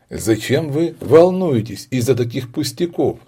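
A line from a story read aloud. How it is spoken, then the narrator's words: Laughing. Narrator (Russian): смеялась она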